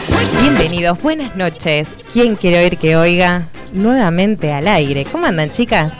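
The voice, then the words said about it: Radio announcer voice. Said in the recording (Spanish): “¡Qué voz de locutora ... puso esa voz ... esa voz divina”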